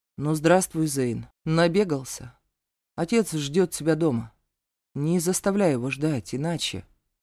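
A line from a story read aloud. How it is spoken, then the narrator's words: Calm, smirking. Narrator (Russian): он ухмыльнулся и спокойно произнес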